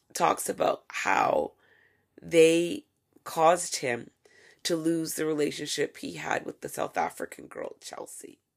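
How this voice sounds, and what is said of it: Strained, fading voice. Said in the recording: “I'm really losing my voice. I'm feeling it now.”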